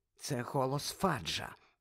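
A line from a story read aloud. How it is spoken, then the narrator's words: Whispered. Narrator (Ukrainian): прошепотіла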